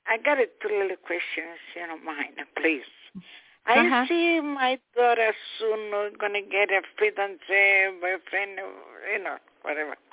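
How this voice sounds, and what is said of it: Italian accent. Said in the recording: “I always have a challenge here understanding your accent. You have a beautiful Italian accent,”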